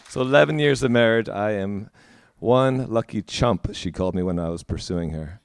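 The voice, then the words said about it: New Jersey American accent. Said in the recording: “my accent, it's New Jerseyan.”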